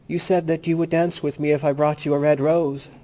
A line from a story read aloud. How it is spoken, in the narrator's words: cried the student